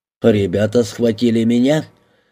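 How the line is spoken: Hearty laughter. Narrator (Russian): Бакстер от души расхохотался

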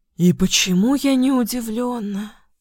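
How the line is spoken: Hoarse tired exhale. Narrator (Russian): выдохнул, все так же хрипло и устало

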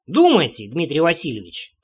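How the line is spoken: Grumbling mutter. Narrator (Russian): пробурчал я

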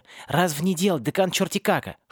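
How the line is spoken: Whispered explanation. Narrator (Russian): шепотом пояснил Аесли

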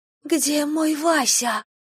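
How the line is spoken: Whisper. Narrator (Russian): прошептала Ирина

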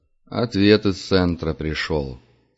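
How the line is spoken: Glum. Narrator (Russian): сказал Дюша уныло

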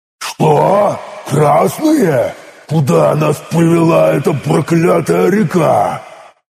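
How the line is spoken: Yelling. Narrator (Russian): Заорал сын Посейдона

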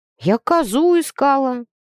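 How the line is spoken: Glum, dejected. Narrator (Russian): уныло ответила Нюрка

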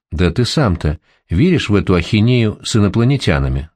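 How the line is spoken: Plain. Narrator (Russian): спросил он

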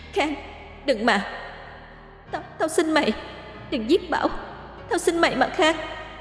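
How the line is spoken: Sobbing, pleading. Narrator (Vietnamese): Tiểu Vi ngăn lại, khóc lóc sụt sùi van xin

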